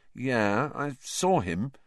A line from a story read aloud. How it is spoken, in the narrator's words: said Harry slowly